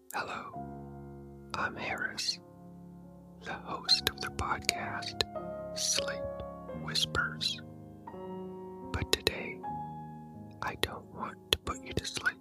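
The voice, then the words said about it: Soft calming ASMR voice. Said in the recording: “in his calming ASMR voice”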